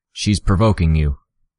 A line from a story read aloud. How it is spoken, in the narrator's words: Uber called out